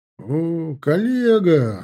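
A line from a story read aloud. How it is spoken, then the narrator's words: Laughing. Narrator (Russian): смеясь Вася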